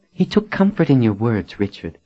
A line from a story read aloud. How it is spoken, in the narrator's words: Nadine said